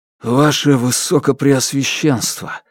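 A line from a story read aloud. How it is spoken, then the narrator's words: Hoarse, scratchy voice. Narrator (Russian): хриплые слова царапали горло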